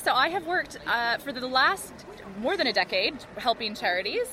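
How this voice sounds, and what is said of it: South London accent with American twang. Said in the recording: “you have a slight twang to your South London accent that makes you sound like you're from a different ... country ... America”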